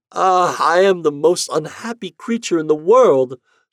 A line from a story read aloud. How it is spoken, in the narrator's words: sobbed